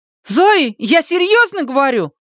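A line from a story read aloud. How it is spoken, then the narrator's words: Shout. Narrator (Russian): крикнула она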